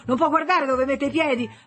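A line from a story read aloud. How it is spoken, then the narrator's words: Woman shouting. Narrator (Italian): una donna gli gridò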